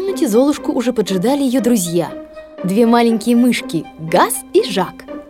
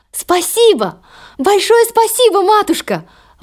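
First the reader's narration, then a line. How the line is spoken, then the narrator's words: Exclaiming. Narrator (Russian): воскликнула Золушка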